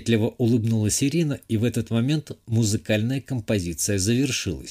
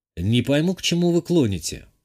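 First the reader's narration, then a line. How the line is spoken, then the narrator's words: Snort. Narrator (Russian): хмыкнул я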